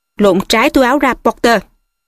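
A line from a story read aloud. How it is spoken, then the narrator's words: Sudden shout. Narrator (Vietnamese): thầy Snape ... thầy thình lình quát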